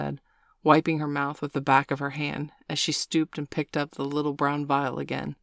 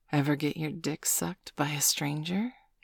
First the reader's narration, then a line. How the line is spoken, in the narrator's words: Sabrina asked, her voice a hot whisper breathed down the side of Bailey's neck